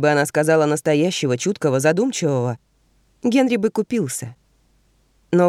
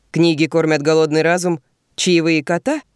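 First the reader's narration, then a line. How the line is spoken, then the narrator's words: Cheerful laughter. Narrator (Russian): Ванесса весело хохочет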